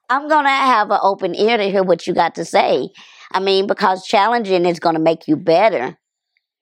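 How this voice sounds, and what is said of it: Heavy Dallas accent. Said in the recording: “my accent ... Boy, that Dallas heavy.”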